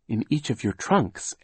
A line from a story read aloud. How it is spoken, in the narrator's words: Aunt Josephine said